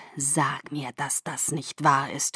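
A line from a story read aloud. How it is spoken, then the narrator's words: Growled. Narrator (German): knurrte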